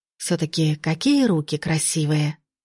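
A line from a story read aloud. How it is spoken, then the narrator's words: Inner sigh. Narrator (Russian): мысленно вздохнула Лина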